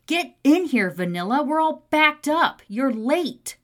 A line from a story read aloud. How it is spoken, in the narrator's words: Dakota yells out to her